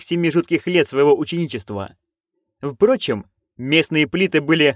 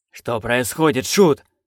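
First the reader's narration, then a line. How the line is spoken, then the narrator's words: Hissed. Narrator (Russian): прошипел он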